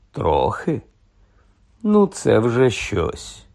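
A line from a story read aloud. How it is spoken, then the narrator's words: Sighing. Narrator (Ukrainian): зітхнув Ронан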